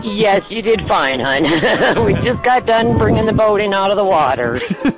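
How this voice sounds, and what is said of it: Distinctive American Michigan accent. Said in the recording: “What a cool accent.”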